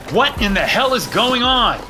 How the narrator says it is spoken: I shouted

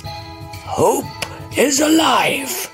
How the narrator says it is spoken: shouted the rocks

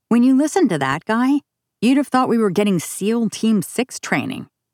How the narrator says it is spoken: Peterson said

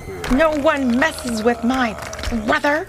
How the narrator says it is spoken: shouted Taffy as she bounded towards the monster

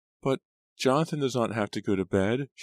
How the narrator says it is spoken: she whined

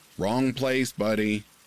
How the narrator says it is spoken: yelled

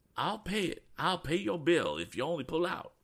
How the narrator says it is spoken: cried Mr

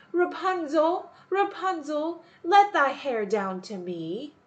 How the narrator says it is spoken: the enchantress wanted to go in, she placed herself beneath it and cried

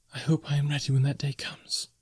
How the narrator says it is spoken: she whispered

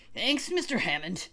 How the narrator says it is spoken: wheezed old Captain Johnson

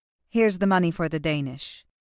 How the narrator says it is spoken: Zoe said

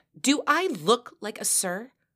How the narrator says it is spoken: she barked

